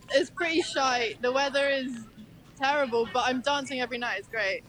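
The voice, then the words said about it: British London accent. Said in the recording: “I like the way she says shite. ... she has a good accent ... I'm from Hackney, babe.”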